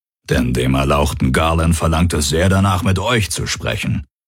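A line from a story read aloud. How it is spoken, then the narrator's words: Growled. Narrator (German): knurrte der Aur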